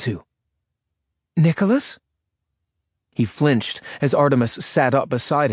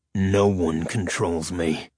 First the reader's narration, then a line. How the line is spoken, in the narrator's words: he growled in his demon's voice